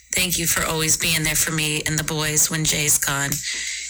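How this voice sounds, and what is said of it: Polished radio-style voice. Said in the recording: “How about that radio voice?”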